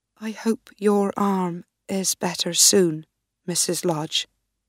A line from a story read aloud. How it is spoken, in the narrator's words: said quietly